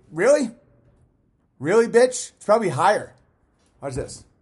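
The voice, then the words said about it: Yelling angrily. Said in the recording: “why I'm yelling at everybody like they're a fucking internet troll”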